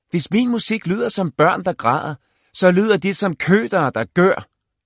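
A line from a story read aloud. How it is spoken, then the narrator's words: Shouting toward door. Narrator (Danish): råbte Corey mod døren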